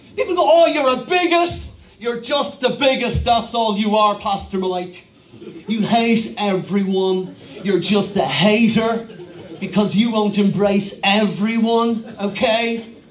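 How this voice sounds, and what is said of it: Put-on educated Dublin accent. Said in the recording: “I'm doing a Dublin educated accent ... the educated elite in Dublin just seem to talk like this all the time”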